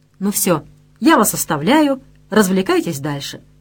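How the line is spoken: Plain. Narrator (Russian): сказала Вера

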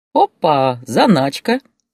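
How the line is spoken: Laughing. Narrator (Russian): с хохотом сказала хозяйка

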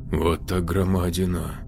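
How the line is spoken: Mutter. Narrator (Russian): пробормотал кто-то

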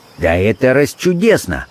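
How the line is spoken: Exclaimed. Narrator (Russian): воскликнул Холмс

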